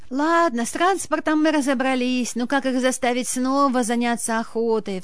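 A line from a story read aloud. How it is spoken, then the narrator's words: Sigh. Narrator (Russian): вздохнула Ирина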